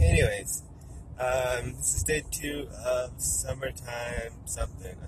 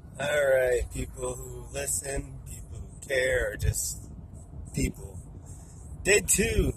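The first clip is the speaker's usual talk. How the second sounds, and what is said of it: Announcer-style voice. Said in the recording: “Why do I sound like an announcer?”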